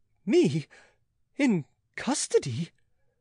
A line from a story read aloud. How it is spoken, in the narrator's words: gasped Pitou at the summit of stupefaction